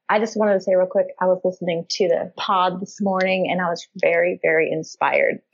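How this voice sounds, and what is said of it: Southern US accent, Memphis. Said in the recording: “I am in Memphis, Tennessee. ... That's your accent. I love your accent.”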